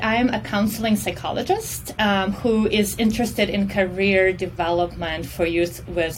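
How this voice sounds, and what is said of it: Russian accent. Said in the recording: “I'm originally from Russia. So if you all hear an accent, that's where that's from”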